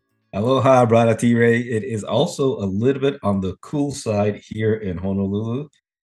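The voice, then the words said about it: Slightly hoarse voice. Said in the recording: “my voice sounds a little bit hoarse... I'm trying to stave off a cold”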